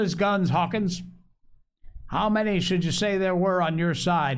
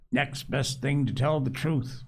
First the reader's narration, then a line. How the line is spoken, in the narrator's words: muttered Captain Smollett